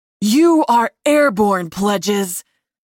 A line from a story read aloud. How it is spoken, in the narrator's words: Seth shouted at us from behind